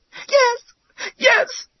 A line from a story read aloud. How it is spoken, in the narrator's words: cried the girl